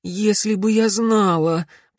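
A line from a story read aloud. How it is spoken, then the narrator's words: Moaning reply. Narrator (Russian): простонала в ответ девушка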